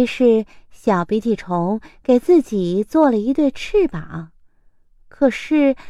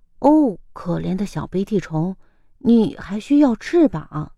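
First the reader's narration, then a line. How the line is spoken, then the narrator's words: Lowered voice. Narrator (Chinese): 它压低声音说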